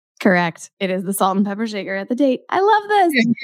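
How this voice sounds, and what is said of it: Slightly sick-sounding voice. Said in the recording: “I've been a little sick, so that's what you can hear in my voice a little”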